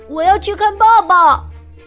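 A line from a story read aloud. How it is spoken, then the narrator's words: Quick call-out. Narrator (Chinese): 布朗立刻叫道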